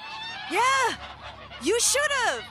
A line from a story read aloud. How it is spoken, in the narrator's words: Charlie yelled back